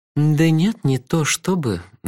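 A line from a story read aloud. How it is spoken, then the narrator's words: Mocking drawl. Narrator (Russian): насмешливо протянула она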